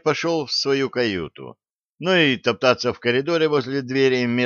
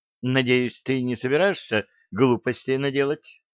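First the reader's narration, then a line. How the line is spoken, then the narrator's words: Plain. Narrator (Russian): спросила эльфа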